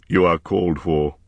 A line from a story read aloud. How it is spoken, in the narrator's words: he said more gravely